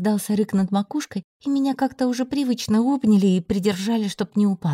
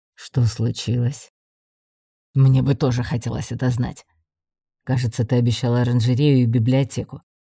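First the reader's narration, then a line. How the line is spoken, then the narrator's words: Grumbled. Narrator (Russian): буркнул лорд Радкар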